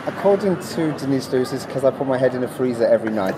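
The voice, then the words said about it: Welsh accent. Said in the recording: “people hear, you know, a Welsh accent”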